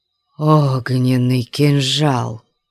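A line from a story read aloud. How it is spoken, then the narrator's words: Breathed out. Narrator (Russian): выдохнул Кабадшах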